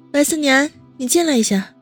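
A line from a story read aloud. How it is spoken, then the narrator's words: Loud call. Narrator (Chinese): 温之夏大声叫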